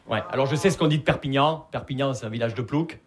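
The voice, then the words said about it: Non-Parisian Perpignan regional French accent. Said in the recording (French): “Vous l'entendez à mon accent, je viens pas de Paris. Je viens de Perpignan.”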